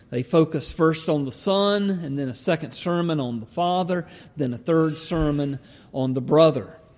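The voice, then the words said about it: Slow Southern Georgia drawl. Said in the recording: “my slow Georgia drawl”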